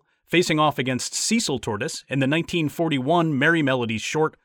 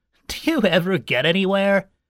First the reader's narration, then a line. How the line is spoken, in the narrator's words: he asked with a mocking laugh